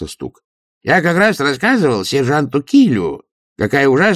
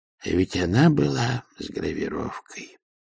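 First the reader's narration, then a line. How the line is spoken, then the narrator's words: Dejected voice. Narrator (Russian): упавшим голосом произнес Тильден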